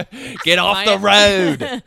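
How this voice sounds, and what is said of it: Put-on New Jersey accent. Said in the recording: “My New Jersey accent.”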